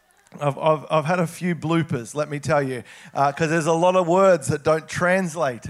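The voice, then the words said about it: Australian accent. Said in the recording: “an Aussie accent”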